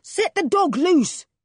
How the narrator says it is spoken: he roared

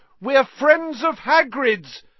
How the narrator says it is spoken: Harry shouted

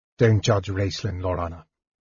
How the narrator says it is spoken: Tanis said harshly

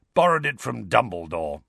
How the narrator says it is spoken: growled Moody

